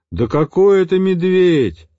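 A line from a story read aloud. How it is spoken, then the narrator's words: Loud reply. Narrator (Russian): громко отозвался сзади математик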